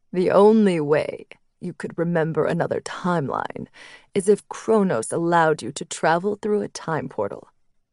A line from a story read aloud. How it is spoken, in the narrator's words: the dragon leader finally spoke, his voice low and steady